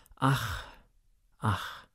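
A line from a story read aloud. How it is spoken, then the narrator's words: Repeated sighing. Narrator (German): Olympia seufzte bloß immer wieder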